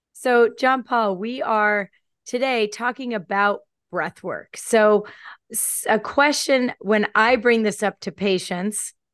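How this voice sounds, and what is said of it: Hoarse, altered voice. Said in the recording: “everyone can probably hear that I might sound a little different than I normally do... excuse the voice. I'm coming off a little laryngitis”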